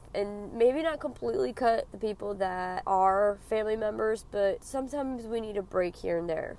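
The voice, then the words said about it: Raspy, sick-sounding voice. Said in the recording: “my horrible raspy voice. I'm sick. I'm trying to get over this damn cold.”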